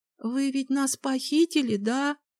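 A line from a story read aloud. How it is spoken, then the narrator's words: Timid. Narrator (Russian): робко произнесла Николь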